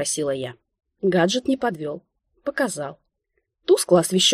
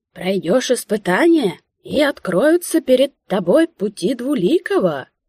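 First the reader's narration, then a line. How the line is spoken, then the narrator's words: Ringing, rattling proclamation. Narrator (Russian): Звонким дребезжащим голосом вещал тот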